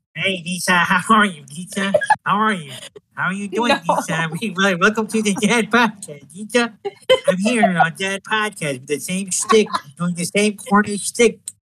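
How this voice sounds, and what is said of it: Nasal imitation of another person's voice. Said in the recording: “let me do an impression of Rayne ... he has a nasally voice, right? ... I don't know if Rayne has a sinus infection or what's going on”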